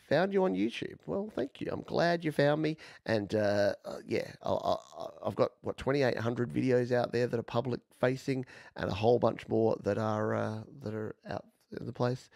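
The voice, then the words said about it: Australian accent. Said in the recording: “Love an Australian accent.”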